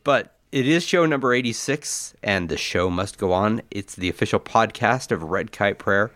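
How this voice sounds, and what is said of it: Nasal, congested voice from cold. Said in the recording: “I have a cold ... You're a little nasally there ... I feel like I'm drowning ... It sounds like it.”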